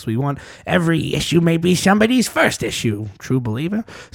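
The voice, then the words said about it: Bad imitation of another person's voice. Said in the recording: “that was my bad impression of Stanley”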